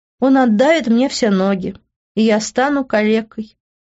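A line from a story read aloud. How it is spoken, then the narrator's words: Sighing, sad. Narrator (Russian): вздохнув, печально проговорила я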